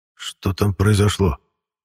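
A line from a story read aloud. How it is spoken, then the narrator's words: Involuntary hoarse wheeze. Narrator (Russian): Я непроизвольно начал хрипеть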